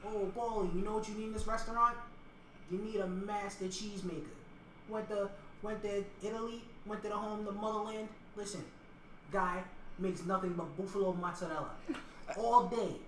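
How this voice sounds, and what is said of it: Put-on Italian accent. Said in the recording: “I'm like doing like the Italian accent. I'm still doing like the mannerisms and everything. I just slip in and out ... I can't stop talking like this. It just comes out naturally.”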